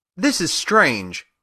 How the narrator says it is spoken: exclaimed Dorothy

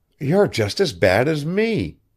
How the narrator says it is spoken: cried Maud suddenly

